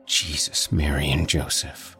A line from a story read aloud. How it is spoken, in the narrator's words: he whispers